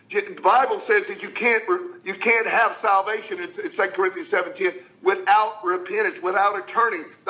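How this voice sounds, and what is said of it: Passionate, excited delivery. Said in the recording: “why you sound passionate, you sound excited. I am”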